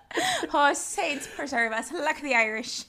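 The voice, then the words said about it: Poor put-on Irish accent. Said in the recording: “that's not a good accent, but that's literally the accent from the luck of the Irish”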